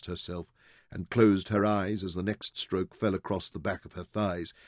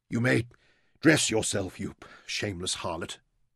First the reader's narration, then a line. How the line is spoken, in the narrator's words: he gasped